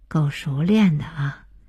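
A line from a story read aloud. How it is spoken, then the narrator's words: Involuntary sigh. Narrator (Chinese): 鹏飞坐在一边忍不住叹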